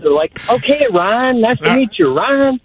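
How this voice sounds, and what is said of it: Exaggerated northern US accent. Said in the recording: “here's my northern accent.”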